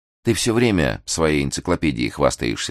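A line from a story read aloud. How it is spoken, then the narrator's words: Plain. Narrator (Russian): сказала Хлоя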